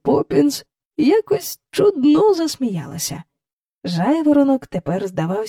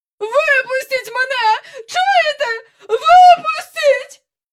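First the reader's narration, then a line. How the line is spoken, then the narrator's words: Screeching. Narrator (Ukrainian): верещала міс Ендрю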